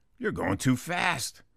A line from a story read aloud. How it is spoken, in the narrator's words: Guy number two growls